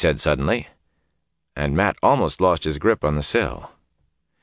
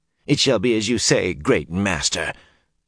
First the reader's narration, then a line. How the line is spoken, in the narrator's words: the man said bitterly